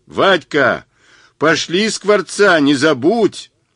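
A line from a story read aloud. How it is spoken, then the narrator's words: Yell after someone. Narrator (Russian): Заорал вслед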